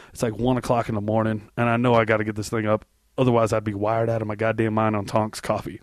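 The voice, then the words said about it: Hoarse, sick-sounding voice. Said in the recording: “I'm a little under the weather this week... I'm kind of sick. You can kind of tell my voice is hoarse.”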